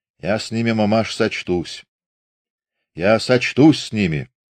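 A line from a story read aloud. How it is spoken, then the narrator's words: Muffled, dull voice. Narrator (Russian): глухо проговорил Фомин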